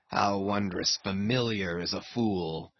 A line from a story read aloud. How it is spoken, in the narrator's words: muttered Ahab